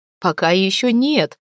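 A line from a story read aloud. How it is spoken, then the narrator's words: Laughing reply. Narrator (Russian): смеясь ответил Гельд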